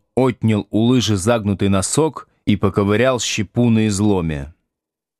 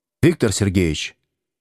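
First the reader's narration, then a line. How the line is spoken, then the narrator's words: Sudden quiet call. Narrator (Russian): вдруг негромко позвал Овечкин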